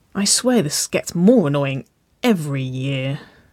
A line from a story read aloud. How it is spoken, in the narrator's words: Waverley sighed